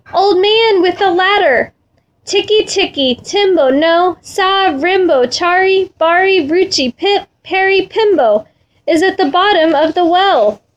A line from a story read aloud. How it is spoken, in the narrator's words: with his very last bit of breath, he shouted